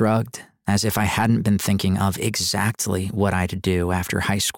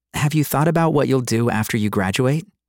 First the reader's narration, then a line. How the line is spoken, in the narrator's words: she asked brightly